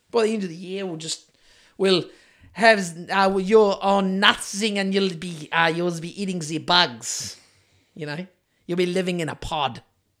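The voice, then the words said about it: Poor imitation of another person's accent. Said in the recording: “It was a terrible Klaus accent.”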